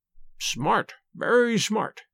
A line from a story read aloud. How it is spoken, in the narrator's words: murmured Sherlock Holmes